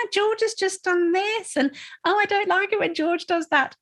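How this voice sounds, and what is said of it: Silly put-on child's voice. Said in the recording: “doing that ridiculous voice”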